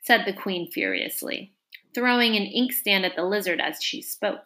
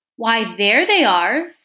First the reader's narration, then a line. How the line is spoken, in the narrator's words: said the king triumphantly